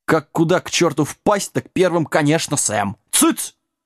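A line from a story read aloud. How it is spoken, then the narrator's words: Sharp shout. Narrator (Russian): прикрикнул лагун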